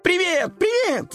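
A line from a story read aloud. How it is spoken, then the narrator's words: Kittens shouting. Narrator (Russian): закричали котята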